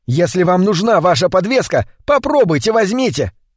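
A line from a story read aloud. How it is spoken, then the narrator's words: Shouted. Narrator (Russian): закричал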